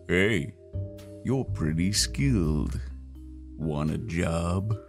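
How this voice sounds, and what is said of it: Gruff deep character voice. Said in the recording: “a gruff, deep voice”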